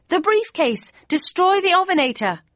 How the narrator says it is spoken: It was now or nothing, and I yelled

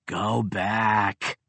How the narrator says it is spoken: she rumbled

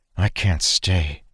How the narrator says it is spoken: she said softly to Arik

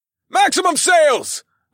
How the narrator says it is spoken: I called out to my crew members

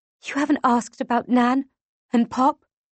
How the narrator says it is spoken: I whisper

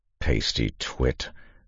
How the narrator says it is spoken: Kanawha muttered

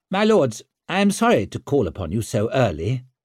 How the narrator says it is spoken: he said

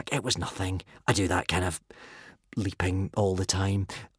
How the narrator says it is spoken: whispered modestly back

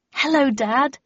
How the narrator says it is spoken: said brightly

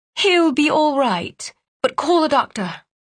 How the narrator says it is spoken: she said, her voice light and airy

